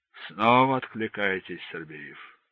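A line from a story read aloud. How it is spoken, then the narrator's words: Sigh. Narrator (Russian): вздохнул майор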